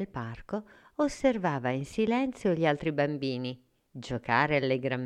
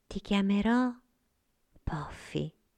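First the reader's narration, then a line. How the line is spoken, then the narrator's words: Whispered. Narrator (Italian): sussurrò Sofia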